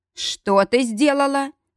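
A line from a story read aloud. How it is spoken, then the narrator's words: Roar. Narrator (Russian): взревел он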